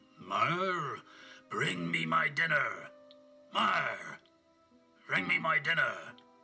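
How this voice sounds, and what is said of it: Deep booming giant's voice. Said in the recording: “His deep voice boomed through the echoing castle.”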